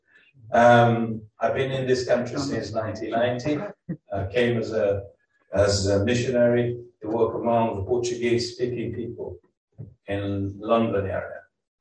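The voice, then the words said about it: Brazilian Portuguese accent in English. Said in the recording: “I'm originally from Brazil. You may wonder what accent that I have ... funny accent”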